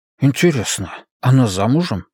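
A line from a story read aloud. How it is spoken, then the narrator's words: Whispered question, chubby man. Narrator (Russian): шепотом спросил толстячок Геннадий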